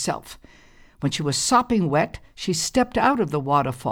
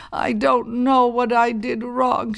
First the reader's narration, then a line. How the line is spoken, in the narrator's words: sobbed